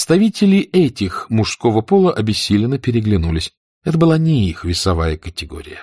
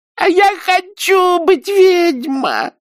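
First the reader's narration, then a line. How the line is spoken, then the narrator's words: Loud yelling. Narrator (Russian): завопила она в голос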